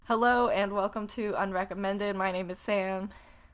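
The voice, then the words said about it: Congested, nasal voice. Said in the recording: “I'm very ill, so I sound like a nasal monster”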